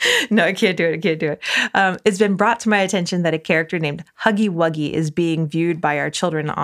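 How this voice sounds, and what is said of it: Usual voice. Nothing is said of it.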